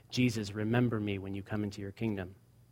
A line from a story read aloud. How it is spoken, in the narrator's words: it was just a faint whisper that came out of his mouth as he said